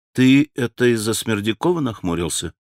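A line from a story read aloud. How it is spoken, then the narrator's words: Plain. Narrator (Russian): спросил Алеша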